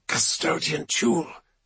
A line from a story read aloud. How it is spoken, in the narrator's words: hisses into the vox